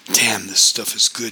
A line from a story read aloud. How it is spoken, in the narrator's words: he said